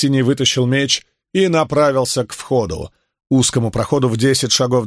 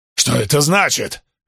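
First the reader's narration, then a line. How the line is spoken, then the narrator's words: Barked. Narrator (Russian): рявкнул он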